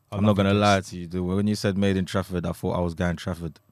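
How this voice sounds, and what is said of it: London accent. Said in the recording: “Don't let the London accent fool you.”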